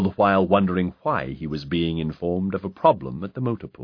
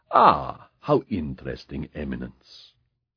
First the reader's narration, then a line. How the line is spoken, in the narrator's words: the Pope murmured